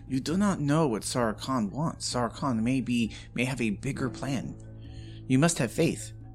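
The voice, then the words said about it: Thick put-on character accent. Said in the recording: “it's my accent. It's so thick.”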